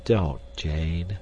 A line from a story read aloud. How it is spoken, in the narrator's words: said Clayton sadly